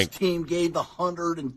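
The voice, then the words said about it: Imitates a coach, slight Chicago accent. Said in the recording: “Gruden impression... It's a little bit of a Chicago accent.”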